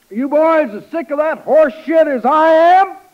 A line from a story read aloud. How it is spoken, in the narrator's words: He shouts